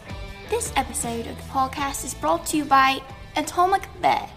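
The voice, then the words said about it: Put-on British accent. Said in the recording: “this ad in a British accent ... this is much better than the pirate ... much more convincing”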